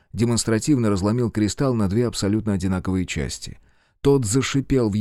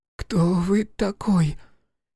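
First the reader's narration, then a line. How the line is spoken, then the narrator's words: Hoarse, loud boy's voice. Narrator (Russian): Хриплый голос мальчика показался громким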